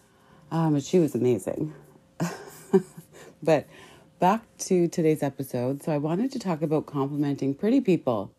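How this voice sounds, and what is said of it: Slightly off, strained voice. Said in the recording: “sorry for my voice because it's a little bit like off because I had way too much wine on Friday”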